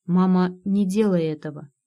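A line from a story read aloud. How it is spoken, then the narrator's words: Moaning. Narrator (Russian): простонал Карло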